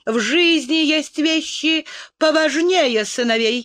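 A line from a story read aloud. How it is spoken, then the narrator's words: Snapping retort. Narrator (Russian): огрызнулась Энн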